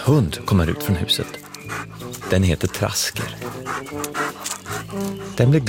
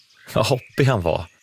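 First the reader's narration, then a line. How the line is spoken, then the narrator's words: Said laughing. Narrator (Swedish): säger Brum och skrattar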